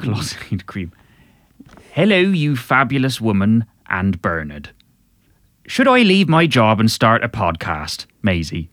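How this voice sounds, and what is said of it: Farmerish Cornish accent. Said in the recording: “a sort of slightly farmerish accent... Cornish accent”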